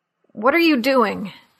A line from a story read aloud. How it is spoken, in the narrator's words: asked in a choked voice